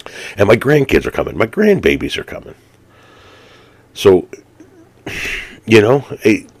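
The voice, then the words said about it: Emotional, voice breaking up. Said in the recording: “sorry to get emotional on you guys”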